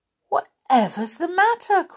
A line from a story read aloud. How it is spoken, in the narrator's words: cried Joe